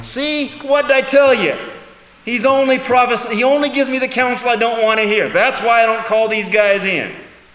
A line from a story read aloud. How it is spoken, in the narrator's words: Ahab whines